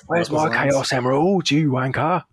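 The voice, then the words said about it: Shouting in an English accent. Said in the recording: “English Knuckles just having a proper go at Sonic. Just having a right shout at him.”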